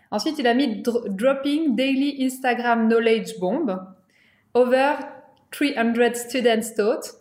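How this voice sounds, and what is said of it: French-accented English. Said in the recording (French): “Sorry for my accent.”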